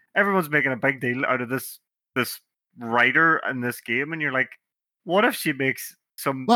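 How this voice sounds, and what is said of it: Usual voice. Nothing is said of it.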